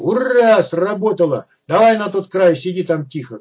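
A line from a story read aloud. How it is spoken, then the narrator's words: Shouting back. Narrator (Russian): крикнул я в ответ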